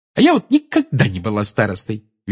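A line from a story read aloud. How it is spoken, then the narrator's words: Cheerful. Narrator (Russian): весело сказала Тонкс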